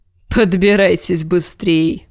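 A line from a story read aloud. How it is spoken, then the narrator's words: Snorting. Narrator (Russian): хмыкнул Большой Джон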